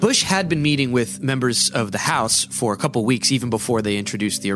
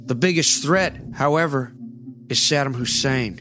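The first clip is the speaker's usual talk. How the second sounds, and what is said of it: Not very good George W. Bush impression. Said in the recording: “I'll do my not very good Bush impersonation.”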